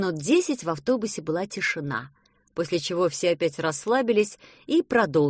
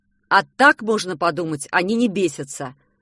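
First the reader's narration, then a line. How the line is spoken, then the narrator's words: Stern. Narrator (Russian): строго сказал папа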